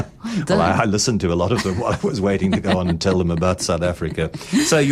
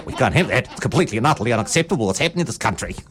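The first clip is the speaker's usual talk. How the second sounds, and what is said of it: Imitates a complaining radio caller. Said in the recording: “a very good impersonation”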